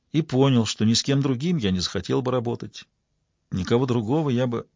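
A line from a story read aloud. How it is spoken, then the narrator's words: Quiet. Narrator (Russian): тихо продолжил куратор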